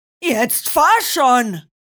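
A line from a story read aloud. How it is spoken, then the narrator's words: Roar. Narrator (German): brüllte Bronco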